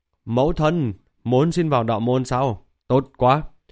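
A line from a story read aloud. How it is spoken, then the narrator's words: Happy exclamation. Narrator (Vietnamese): Thạch Hạo thì vui vẻ kêu lên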